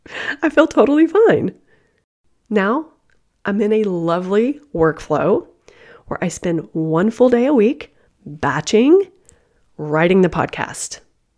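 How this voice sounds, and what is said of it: Sick, weird-sounding voice. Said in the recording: “I'm sick ... I sound weird.”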